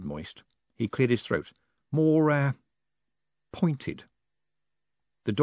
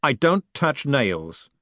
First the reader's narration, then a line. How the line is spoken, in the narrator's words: said Dave sharply